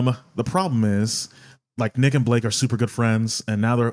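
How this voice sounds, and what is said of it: Usual voice. Nothing is said of it.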